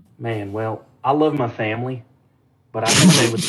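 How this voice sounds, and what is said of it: Usual voice. Nothing is said of it.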